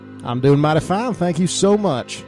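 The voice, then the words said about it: Exaggerated put-on Southern accent. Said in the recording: “I knew I was pushing it, this whole southern accent”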